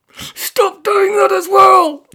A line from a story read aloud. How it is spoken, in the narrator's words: cried at a volume that would make an anaesthetised sloth jump